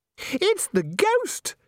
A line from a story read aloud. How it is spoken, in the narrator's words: shrieked Christine automatically